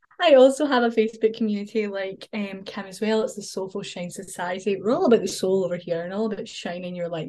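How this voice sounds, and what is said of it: Scottish accent. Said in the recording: “come listen to me in my Scottish accent.”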